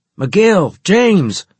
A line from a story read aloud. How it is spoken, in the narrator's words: I shouted